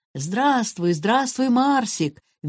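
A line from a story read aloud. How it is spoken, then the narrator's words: Cheerful shouting. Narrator (Russian): весело кричали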